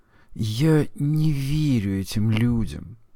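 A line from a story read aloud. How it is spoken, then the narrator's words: Muttered. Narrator (Russian): пробормотал Форд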